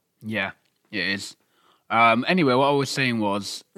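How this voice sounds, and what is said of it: Put-on serious voice. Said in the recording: “This is me trying to put a serious voice on”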